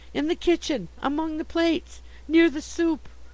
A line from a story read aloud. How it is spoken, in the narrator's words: I gasped